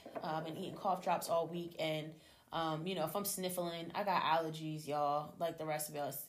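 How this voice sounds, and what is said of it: Hoarse, sore-throated voice. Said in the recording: “if I sound a little bit, hoarse, my throat is still a little bit sore from this week of being sick”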